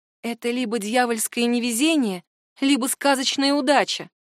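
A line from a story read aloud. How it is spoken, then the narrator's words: Plain. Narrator (Russian): сказала Марианна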